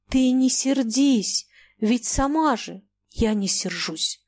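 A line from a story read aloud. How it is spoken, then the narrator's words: Loud whisper. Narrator (Russian): громким шепотом ответила она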